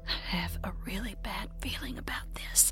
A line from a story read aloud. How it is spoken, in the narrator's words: Kenny, whose throat had suddenly gone dry as a bone, whispered to Jacob and said